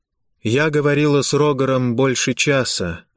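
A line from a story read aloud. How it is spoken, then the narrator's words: Dull flat voice. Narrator (Russian): ответила Эвалит все тем же тусклым голосом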